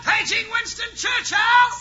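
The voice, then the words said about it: Loud yelling. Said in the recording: “that's why I'm yelling so loud”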